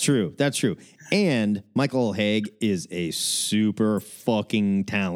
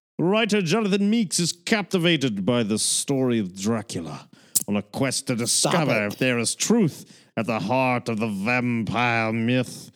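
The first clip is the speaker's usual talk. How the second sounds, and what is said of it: Put-on old horror film British accent. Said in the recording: “That is not a British accent. ... That was my Hammer Films British accent.”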